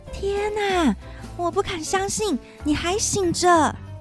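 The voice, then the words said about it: Quiet, hushed voice. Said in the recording (Chinese): “黛拉小声地说”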